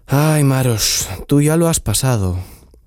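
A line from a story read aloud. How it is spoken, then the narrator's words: Sighing. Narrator (Spanish): suspiró Chiprich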